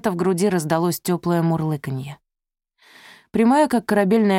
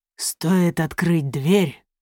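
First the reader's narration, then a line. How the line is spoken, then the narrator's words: Growl. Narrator (Russian): прорычал он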